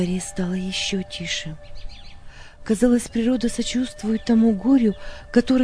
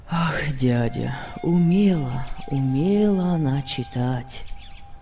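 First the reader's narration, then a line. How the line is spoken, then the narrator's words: Sad. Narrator (Russian): ответил Лессинг печально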